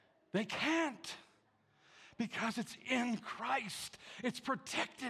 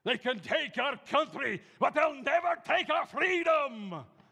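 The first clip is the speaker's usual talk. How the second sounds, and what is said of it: Imitates a movie hero's battle speech. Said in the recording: “My best imitation of Braveheart.”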